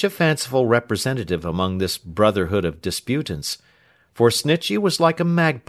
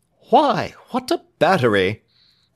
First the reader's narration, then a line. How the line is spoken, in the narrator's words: exclaimed Alfred